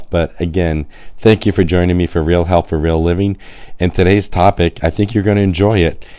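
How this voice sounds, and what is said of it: Hoarse, raspy voice. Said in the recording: “I have a little bit of laryngitis. I know I sound like a chain smoker”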